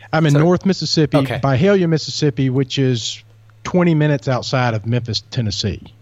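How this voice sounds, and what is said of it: Mississippi accent. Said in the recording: “I love your accent, by the way... This is the first time we've had a Mississippi accent on the program”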